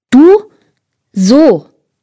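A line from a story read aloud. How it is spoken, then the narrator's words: Very loud. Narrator (German): sagte Tom sehr laut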